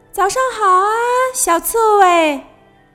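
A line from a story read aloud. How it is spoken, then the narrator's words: Loud call. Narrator (Chinese): 他高声喊道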